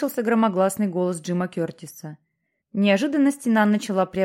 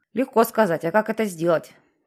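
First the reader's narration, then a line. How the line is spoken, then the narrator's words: Displeased grumble. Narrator (Russian): Недовольно пробурчал Джексон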